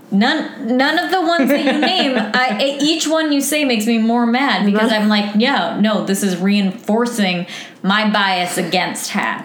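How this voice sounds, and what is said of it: Raised, shouting voice. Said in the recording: “raise my voice ... we're just screaming”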